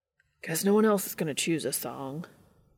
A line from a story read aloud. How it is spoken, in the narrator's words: Dean sighed